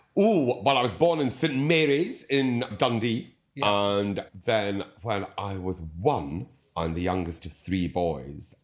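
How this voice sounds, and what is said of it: Lilting accent. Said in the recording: “your lovely lilt”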